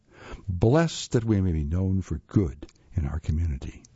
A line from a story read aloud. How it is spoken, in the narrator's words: murmured together